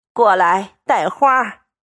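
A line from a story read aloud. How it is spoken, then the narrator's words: Quick, laughing. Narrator (Chinese): 忙笑道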